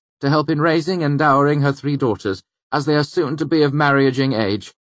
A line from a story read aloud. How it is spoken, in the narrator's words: Bast said loudly across the room